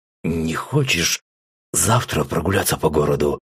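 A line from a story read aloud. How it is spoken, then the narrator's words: Slightly hoarse question. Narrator (Russian): слегка охрипшим голосом спросил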